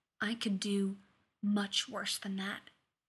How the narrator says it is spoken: that big, stupid cat whispered

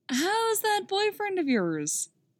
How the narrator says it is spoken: asks Clark, too loudly

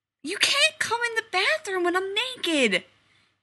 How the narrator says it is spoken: he yells at the door

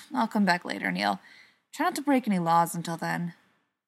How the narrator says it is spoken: sighed and turned around, saying

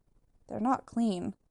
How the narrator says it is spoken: Keely murmurs, but his voice is quiet

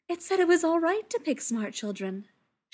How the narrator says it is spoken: she said happily

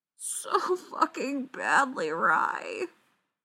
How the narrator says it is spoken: she moans

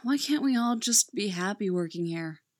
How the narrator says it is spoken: Owen asks with a sigh

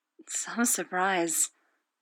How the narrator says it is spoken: whispers, head bent so that his lips are mere inches from Styles' ear

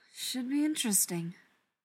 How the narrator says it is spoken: Daniil said under her breath

